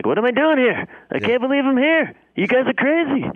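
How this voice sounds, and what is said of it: Imitates another person's voice. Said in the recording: “that Larry David vibe ... my amazing Larry David impression ... Nailed it.”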